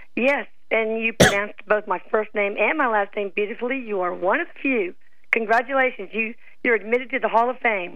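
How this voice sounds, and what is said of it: Hoarse voice. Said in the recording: “apologize for my voice. I'm hoarse because I have a little cold.”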